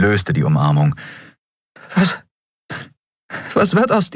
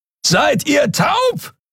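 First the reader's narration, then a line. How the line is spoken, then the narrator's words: Roaring across great distance. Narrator (German): brüllte Kero von der anderen Seite des Portals über die Kluft zwischen zwei Planeten hinweg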